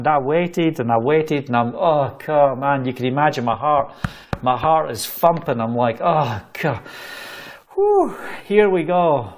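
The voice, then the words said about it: Scottish accent. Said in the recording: “in my Scottish accent”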